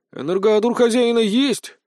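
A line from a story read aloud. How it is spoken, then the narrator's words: Confused. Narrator (Russian): растерянно произнес Леонид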